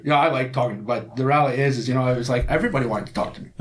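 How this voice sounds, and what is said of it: Scottish accent. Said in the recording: “Everybody wanted to hear the Scottish accent.”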